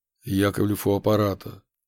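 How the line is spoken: Dry, tired, flat phone voice. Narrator (Russian): сухо прозвучал в трубке уставший голос моего начальника, лишенный каких-либо интонаций

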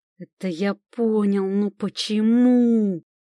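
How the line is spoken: Growling demon. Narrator (Russian): рычал уже демон

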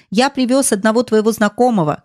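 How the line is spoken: Shouting. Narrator (Russian): крикнул Петвик

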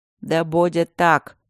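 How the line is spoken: Grumbled. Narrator (Russian): проворчал Макс

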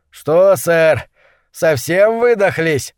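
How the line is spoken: Overly loud question. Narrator (Russian): спросил Джерсон излишне громко

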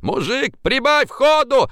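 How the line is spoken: Shout. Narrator (Russian): закричал Пургин

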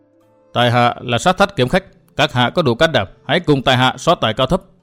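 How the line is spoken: Cold, proud. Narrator (Vietnamese): Chàng hiên ngang lạnh lùng thốt

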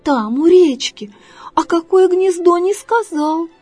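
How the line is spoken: Sigh. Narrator (Russian): вздохнула Лиска Лариска

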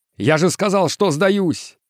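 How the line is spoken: Shout. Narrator (Russian): крикнул Экс

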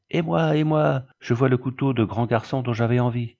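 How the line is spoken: Eldest son exclaiming. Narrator (French): s'exclame François, le fils aîné

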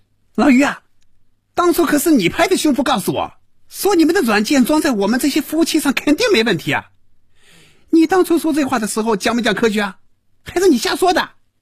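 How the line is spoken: Furious yelling. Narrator (Chinese): 赵平凡被余威彻底激怒了，真要骂人了，大声嚷着

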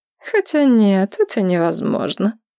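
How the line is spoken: Sad. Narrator (Russian): продолжила Инна грустно

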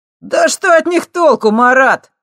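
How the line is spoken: Guffawing. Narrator (Russian): расхохотался первый

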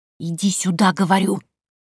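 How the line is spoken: Hiss. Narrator (Russian): прошипел Кайо

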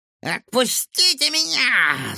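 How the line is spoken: Angry growl. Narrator (Russian): злобно прорычал Вупинь

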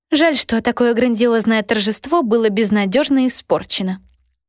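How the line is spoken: Sighing. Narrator (Russian): вздохнула сидящая на диване Руфина

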